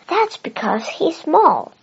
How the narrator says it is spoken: exclaimed Jonathan

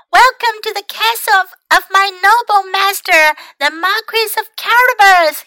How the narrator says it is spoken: he cried

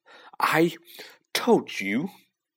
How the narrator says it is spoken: Hermione gasped

